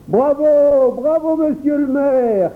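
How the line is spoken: Crowd shouting. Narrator (French): criait-on de tous les côtés

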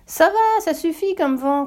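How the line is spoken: Shouted, emperor. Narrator (French): crie l'empereur

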